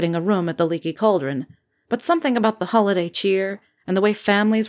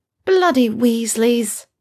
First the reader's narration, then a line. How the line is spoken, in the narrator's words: she groaned as she admitted defeat